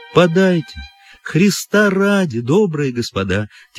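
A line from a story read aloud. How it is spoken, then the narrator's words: Sad, plaintive drawl. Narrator (Russian): тянула она печальным, жалобным голоском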